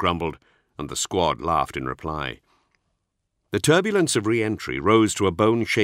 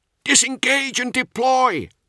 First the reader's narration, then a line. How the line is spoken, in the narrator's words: shouted over the squad net